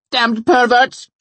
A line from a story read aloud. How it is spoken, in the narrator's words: she screeched, her eyes glaring